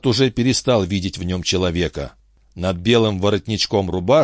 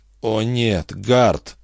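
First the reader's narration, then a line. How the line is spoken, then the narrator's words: Inner groan. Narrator (Russian): только и простонал его разум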